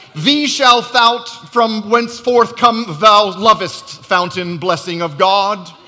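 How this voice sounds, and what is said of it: Mock archaic King James English. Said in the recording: “It sounds like you should say it with a King James accent”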